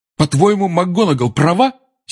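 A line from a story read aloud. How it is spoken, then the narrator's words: Angry address. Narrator (Russian): сердито обратился Гарри к портрету Корнелиуса Фаджа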